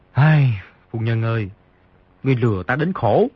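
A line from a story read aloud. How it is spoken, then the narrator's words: Sighing. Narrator (Vietnamese): Di Tiểu Bảo thở dài một tiếng, nói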